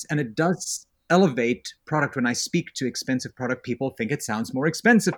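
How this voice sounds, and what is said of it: South African accent, almost British. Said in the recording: “accent. I grew up in South Africa. It almost sounds British. ... a little bit more Yiddish than British in it”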